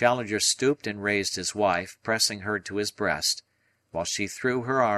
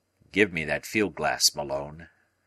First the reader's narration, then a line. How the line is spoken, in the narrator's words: said he, gravely